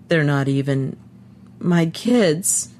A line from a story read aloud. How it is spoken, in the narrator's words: he said brokenly